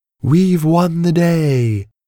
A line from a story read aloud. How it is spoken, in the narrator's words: Pia cried to more cheers